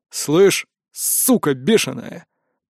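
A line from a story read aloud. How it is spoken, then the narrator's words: Man hissing. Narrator (Russian): прошипел один из мужиков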